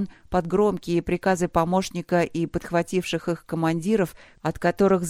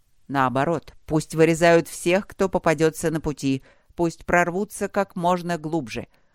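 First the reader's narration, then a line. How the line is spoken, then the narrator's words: Plain. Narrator (Russian): ответил Тэншмин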